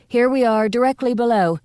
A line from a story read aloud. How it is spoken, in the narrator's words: Nancy shouted